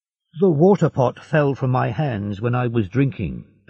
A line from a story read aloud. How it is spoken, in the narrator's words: Dantès said